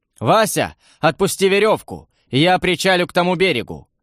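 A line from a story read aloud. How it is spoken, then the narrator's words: Shout with a smile. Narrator (Russian): крикнул я товарищу, улыбаясь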